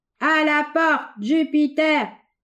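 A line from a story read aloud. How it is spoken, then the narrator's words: Crowd shouting in unison. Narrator (French): cria l'assemblée tout d'une voix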